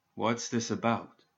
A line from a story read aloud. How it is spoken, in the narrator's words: Joss asked as quietly as he could